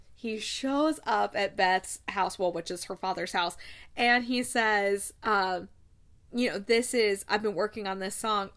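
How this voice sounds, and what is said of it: Choked-up, emotional voice. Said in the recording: “getting choked up.”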